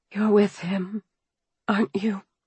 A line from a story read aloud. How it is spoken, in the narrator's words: I whispered